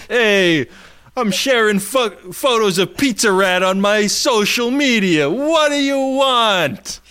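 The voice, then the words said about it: Bad put-on New York accent. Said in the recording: “your New Yorker accent fucking sucks”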